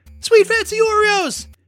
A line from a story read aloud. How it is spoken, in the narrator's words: screamed